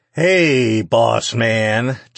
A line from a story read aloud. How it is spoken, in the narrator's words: Jake slurred